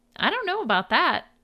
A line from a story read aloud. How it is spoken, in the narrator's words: chirped a high voice from behind him